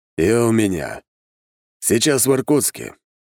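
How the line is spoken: Weary reply with sigh. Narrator (Russian): ответил он и вздохнул, набравшись сил

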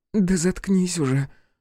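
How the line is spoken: Strained, forced out. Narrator (Russian): сумела выдавить она

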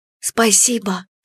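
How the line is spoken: Whisper. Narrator (Russian): шептала Эмия

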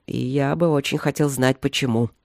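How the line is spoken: Grumbling. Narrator (Russian): проворчал он

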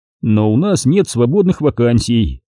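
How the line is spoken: Plain. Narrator (Russian): ответил я

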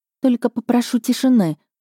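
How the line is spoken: Whisper. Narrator (Russian): прошептала я

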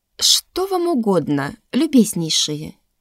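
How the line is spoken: Cold, haughty, calm. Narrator (Russian): Холодно, надменно, спокойно

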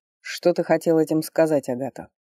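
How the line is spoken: Plain. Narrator (Russian): спросил он

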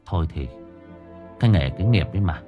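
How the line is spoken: Mournful sighing chorus. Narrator (Vietnamese): mấy thầy trò không hẹn mà cùng nhau thở dài não nề

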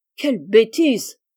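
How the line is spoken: Exclaiming. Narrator (French): s'écria Joe

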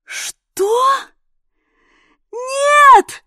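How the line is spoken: Shouting. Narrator (Russian): Заорала я

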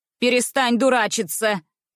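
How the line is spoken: Sharp scolding. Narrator (Russian): прикрикнула на меня тетя Нелли

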